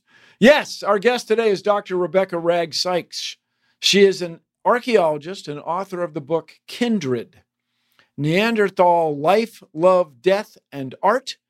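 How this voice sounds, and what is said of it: American accent. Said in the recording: “I grew up in the U.S. I have an American accent”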